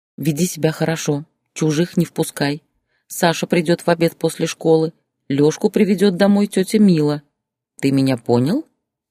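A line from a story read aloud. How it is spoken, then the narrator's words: Stern question. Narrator (Russian): спросила строго медведя Зоя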